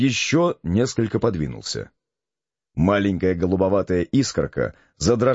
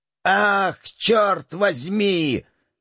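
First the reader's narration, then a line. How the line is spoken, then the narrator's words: Hoarse yelling. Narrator (Russian): заорал хриплый голос, который принадлежал Ля-Рапе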